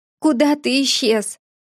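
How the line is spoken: Sobbing. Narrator (Russian): всхлипнула я

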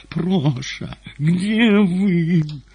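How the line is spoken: Tender, tearful, nasal exclamation. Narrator (Russian): красавица музыкальным нежным голосом, немного гнусавым после плача, воскликнула

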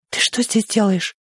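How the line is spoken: Loud whisper. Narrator (Russian): громко прошептала она

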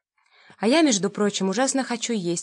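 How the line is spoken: Plain. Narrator (Russian): сказала я

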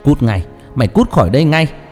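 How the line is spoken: Roaring. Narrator (Vietnamese): Tiếng gầm rú vang lên

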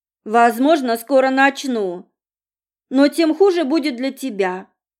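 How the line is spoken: Grumbled. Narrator (Russian): буркнула я

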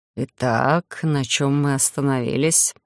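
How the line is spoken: Hoarse question. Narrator (Russian): хрипло уточнил у меня Эдриш

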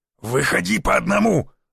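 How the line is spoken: Growled. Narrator (Russian): зарычал я

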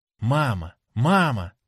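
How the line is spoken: Exclaiming. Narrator (Russian): воскликнула она

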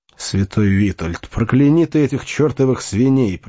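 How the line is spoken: Frustrated grumbling. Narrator (Russian): проворчал свинопас после тщетных попыток собрать разбежавшееся стадо

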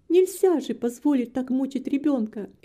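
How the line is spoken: Exclamation. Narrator (Russian): воскликнув

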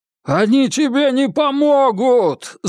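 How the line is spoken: Yelled. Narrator (Russian): заорал Сергей

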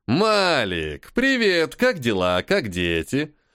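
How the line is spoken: Cheerful and loud. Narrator (Russian): Весело и громко произнес Локи

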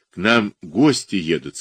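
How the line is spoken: Plain. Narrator (Russian): сказал он

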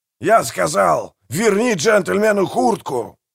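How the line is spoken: Barked. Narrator (Russian): рявкнул мэр

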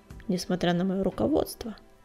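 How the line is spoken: Glum question. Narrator (Russian): уныло спросил Огнегриф

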